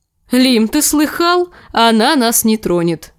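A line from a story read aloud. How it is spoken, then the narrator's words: Laughing. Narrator (Russian): засмеялся рыжий лучник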